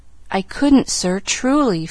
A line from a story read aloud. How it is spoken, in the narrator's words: faltered Pollyanna